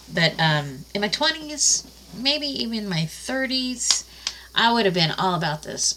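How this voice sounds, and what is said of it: Congested, stuffed-up voice. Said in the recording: “I sound a little stuffed up.”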